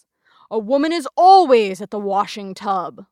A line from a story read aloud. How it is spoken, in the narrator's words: Lawson thundered in conclusion